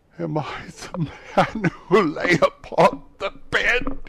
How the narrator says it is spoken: he cried upon his knees

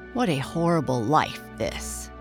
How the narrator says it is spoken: grumbled Pine

